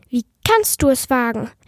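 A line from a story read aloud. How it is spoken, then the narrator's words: Convincingly angry shout. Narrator (German): rief sie wütend und so überzeugend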